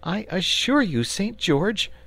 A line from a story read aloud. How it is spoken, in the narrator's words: he said earnestly